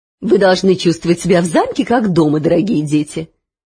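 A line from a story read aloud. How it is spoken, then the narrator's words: Melodious and affectionate. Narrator (Russian): певуче и ласково проговорила прекрасная дама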